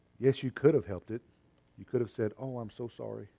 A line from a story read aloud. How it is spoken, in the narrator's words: he said in a low voice